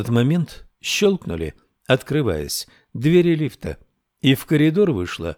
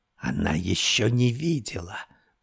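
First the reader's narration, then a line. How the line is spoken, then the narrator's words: Hissed in sinister glee. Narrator (Russian): прошипела она в зловещем ликовании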